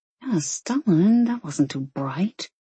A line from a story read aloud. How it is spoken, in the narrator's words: she mumbled